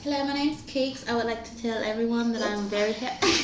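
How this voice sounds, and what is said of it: Put-on British accent. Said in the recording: “Everyone do their best British accent.”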